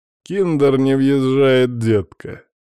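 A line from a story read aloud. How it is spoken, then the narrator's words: Mocking drawl. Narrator (Russian): насмешливо тянет Фриц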